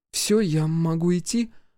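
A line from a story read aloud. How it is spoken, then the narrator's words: Timid question. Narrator (Russian): робко спросила та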